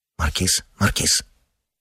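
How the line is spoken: Low half-voice. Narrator (Russian): вполголоса сдерживал сосед

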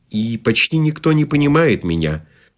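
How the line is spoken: Sad lady. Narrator (Russian): печально сказала дама

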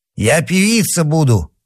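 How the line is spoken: Hoarse rasp. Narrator (Russian): прохрипела она

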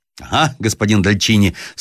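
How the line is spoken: Shouting with loud laughter. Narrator (Russian): вскричал с громким хохотом Шамбюр

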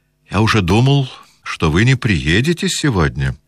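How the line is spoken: Pleasant voice. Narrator (Russian): заговорил он приятным голосом

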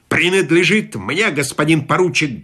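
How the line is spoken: Rough, cutting interruption. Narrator (Russian): грубо оборвал полковник

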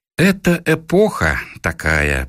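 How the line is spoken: Through gritted teeth. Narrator (Russian): процедил Коля

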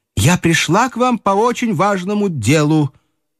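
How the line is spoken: High-pitched voice. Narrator (Russian): проговорила тем же высоким голосом

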